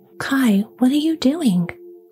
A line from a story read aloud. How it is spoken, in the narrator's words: cried the little girl